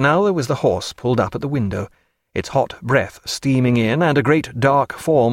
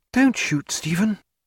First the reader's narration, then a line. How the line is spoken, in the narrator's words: Sophia whispered